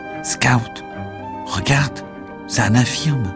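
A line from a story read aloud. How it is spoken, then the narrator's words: Whispered by a reverend. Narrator (French): Le révérend se pencha pour chuchoter à Jem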